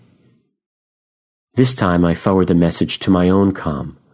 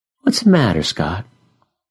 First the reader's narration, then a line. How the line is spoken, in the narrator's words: I sigh